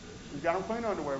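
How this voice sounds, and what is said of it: Sarcastic delivery. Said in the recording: “I say that really sarcastically”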